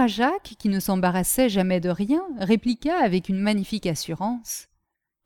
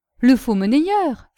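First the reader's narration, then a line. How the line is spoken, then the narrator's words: Exclaiming. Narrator (French): s'exclama Castelrajac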